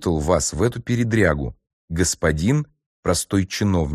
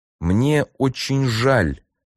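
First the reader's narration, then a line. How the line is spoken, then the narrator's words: Through gritted teeth. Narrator (Russian): проговорил Носов сквозь зубы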